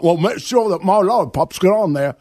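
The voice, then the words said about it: Terrible put-on Australian accent. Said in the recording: “the worst Australian accent ever. ... That was terrible.”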